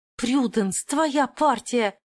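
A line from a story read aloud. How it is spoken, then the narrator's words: Hiss. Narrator (Russian): зашипела Клозет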